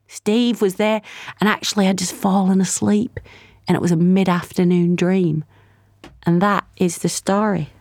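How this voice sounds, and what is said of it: Sustained put-on accent. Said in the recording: “great dedication to the accent”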